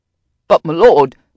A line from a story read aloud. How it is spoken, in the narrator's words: Charlie sputtered